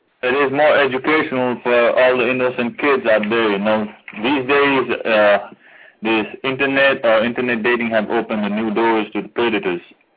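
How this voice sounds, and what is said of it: Deep rich voice, Nepali accent. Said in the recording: “the guy in the back with the deep, rich voice ... Nepal ... I love that accent”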